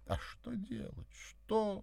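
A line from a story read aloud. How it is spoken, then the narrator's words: Sudden sob. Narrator (Russian): неожиданно всхлипнула моя спутница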